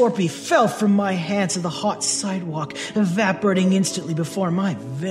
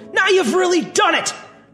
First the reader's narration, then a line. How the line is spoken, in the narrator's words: shouted